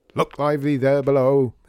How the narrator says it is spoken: he shouted down the stairs into the building

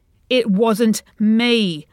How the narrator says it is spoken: Lenny shouts in defence

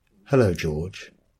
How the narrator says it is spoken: she says

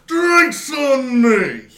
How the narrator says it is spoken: he shouted

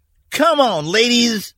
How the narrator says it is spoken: Mac yelled over the noise of the idling motors

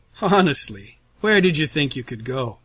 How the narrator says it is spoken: Russell asks, his tone jovial, yet somehow still dripping with menace

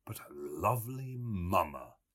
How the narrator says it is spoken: he murmured to himself

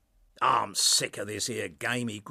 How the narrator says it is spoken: he grunts

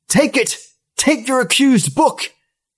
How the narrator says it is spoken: cried

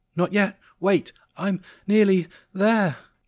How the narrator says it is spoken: Jessica panted

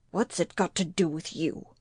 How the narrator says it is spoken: His voice was as hard and cutting as he could make it

